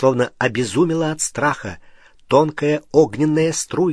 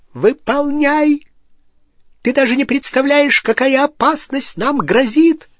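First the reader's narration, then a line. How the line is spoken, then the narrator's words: Shrieked. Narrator (Russian): завизжала Беллатриса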